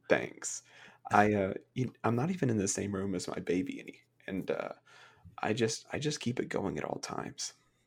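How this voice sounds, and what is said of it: Soft soothing ASMR-style voice. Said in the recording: “your ASMR voice ... I try to be as soothing as possible”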